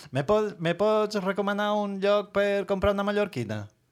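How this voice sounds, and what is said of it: Put-on Valencian Catalan accent. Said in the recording (Catalan): “demanar a uns valencians ... que faré l'accent.”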